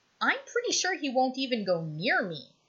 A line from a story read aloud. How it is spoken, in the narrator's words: Styles says cheerfully